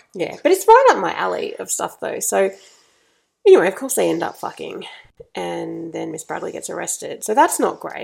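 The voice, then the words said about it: Husky congested voice. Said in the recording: “if I didn't have a cold... which is why my voice is so sexy at the moment”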